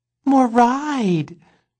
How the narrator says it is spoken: pleaded Boots

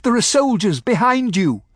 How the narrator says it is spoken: I shouted

